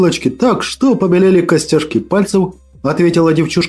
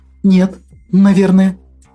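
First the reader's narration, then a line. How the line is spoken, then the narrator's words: Uncertain. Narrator (Russian): неуверенно произнесла Акулина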